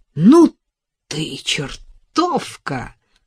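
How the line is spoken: Delighted exclamation. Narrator (Russian): восторженно воскликнул он

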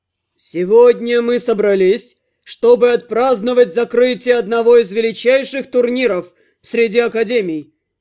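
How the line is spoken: Solemn announcement. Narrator (Russian): торжественно произнес он

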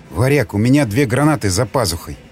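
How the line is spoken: Whispered. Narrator (Russian): прошептал Николай

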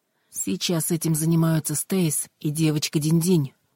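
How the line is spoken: Plain. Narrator (Russian): ответила она

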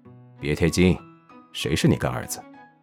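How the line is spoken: Calm reply from behind. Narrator (Chinese): 长宁在后面淡淡地回

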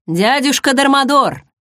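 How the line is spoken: Loud announcement. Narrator (Russian): громко объявил Шейнер

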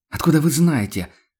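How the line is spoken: Angry snap. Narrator (Russian): зло бросил Хагнер

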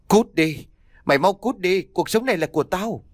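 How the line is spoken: Frightened crying. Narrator (Vietnamese): cô ấy vẫn sợ hãi khóc lên

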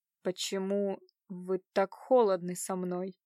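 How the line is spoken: Slow, drawn-out. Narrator (Russian): медленно произнес он, растягивая каждое слово

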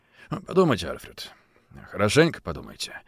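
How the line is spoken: Quiet. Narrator (Russian): сказал он тихо

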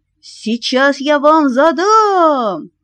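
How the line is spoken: Confused shouting. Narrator (Russian): кричал он, еще не понимая, что произошло

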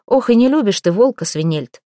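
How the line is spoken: Short laugh. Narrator (Russian): хохотнул Святослав

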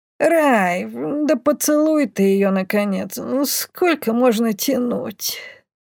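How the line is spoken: Sleepy mumble. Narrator (Russian): Сонно пробормотала Бумба

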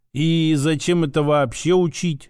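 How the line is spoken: Drawling. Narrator (Russian): протянул я

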